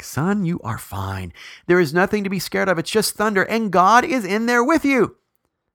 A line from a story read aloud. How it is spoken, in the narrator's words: The dad hollered back